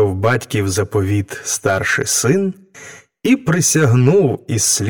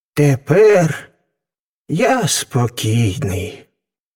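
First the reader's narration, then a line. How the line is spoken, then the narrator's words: Relieved sigh. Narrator (Ukrainian): зітхнув із полегкістю батько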